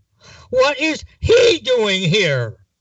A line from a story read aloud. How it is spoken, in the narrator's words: She screamed at her husband